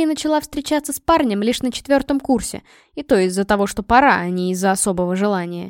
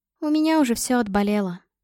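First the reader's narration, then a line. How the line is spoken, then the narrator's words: Sad, smiling. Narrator (Russian): грустно улыбалась она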